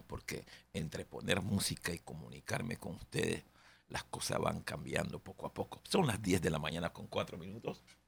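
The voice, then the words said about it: Worn-out, hoarse voice. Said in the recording (Spanish): “Ustedes perdonen la voz, ¿no? ... la voz quedó por allá también ... durante la mañana se va a ir componiendo la voz”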